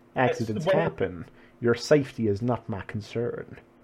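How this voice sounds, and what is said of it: Strong put-on accent. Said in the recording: “I started doing the accent before the line ... It's one of those strong accents that's hard to let go of”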